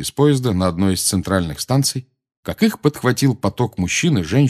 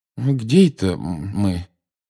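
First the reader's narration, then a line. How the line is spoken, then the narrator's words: Confused question. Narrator (Russian): растерянно спросил мистер Уизли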